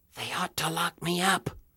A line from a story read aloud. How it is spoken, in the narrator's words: whispered